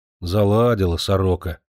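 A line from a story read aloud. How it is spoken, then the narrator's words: Grumbling mutter. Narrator (Russian): буркнул Кожухин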